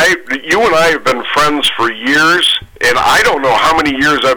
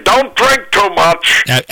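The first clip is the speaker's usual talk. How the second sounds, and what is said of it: Imitates a baseball announcer's voice. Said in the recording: “best Harry Carey impersonation in the business”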